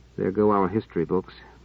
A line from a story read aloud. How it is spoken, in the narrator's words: Treviz muttered